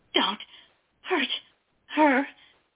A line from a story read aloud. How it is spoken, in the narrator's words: Dory pleaded, her words interspersed with sobs